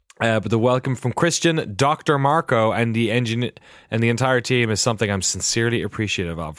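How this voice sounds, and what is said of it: Congested voice from a cold. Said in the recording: “I've got a cold and it's throwing the whole thing off”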